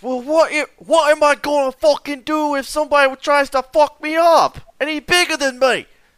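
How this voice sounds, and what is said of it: Put-on British accent. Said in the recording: “if you're British and you're offended by his accent”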